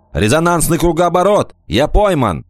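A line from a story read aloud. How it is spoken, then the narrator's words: Shouting. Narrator (Russian): Кикаха крикнул ей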